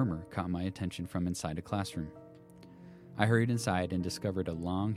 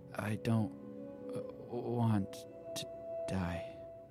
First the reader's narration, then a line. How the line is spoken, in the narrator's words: the girl moaned